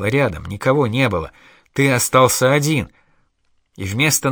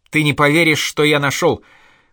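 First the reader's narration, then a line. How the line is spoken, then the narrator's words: Almost shouting. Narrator (Russian): почти кричал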